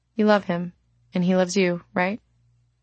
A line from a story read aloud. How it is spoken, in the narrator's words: Céline asked